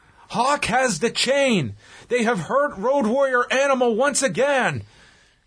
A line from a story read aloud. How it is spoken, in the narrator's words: Ross yelling